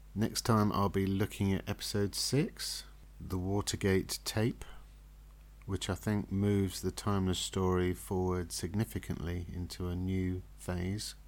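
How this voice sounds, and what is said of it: Slightly croaky voice. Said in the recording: “my voice has been a bit croaky.”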